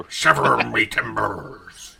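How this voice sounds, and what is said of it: Nixon impression with pirate accent. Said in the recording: “Nixon as a pirate ... Do Nixon with a pirate R ... It's good, but it leans too much into pirates ... It loses the Nixon”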